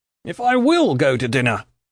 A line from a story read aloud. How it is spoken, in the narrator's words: cried Mr